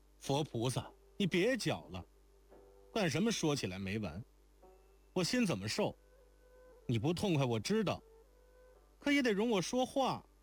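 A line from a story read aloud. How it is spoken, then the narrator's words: Exasperated shout. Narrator (Chinese): 惊环可再忍不住，就……叫道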